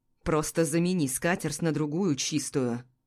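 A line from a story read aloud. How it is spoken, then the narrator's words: Growled. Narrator (Russian): прорычал Ротвейлер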